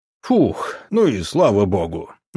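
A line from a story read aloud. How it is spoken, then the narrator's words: Relieved exhale, big man. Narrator (Russian): выдохнул здоровяк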